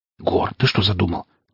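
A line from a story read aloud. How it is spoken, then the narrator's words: Urgent whisper, brother. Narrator (Russian): таким же порывистым шепотом спросил меня брат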